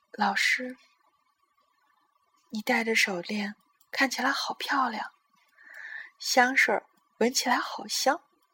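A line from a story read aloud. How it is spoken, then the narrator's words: Soft whisper. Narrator (Chinese): 泰迪小声的说了一句话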